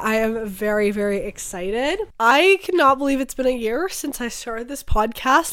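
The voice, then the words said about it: Raspy, partly lost voice. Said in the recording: “my voice is a little raspy today... my voice is still a little bit gone. So you guys get raspy voice”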